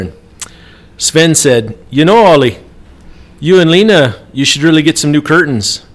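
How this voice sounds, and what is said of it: Put-on accent for a joke. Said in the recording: “I like the accent. That's good.”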